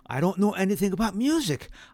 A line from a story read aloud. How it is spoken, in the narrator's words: declared desperately